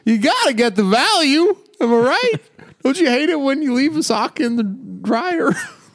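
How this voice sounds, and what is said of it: Seinfeld and Bill Cosby impression. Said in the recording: “That's Bill Cosby you're doing. You're doing sort of a combination Seinfeld Bill Cosby.”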